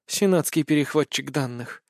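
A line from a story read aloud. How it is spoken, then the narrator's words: Quiet whisper. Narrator (Russian): тихо прошептала Настя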